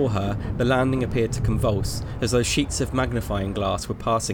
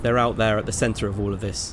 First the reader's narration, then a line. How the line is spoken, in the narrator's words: she replied